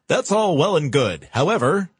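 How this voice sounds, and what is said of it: Polished radio announcer voice. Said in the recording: “nice radio voice.”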